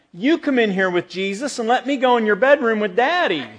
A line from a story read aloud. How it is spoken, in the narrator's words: the little girl pleaded one more time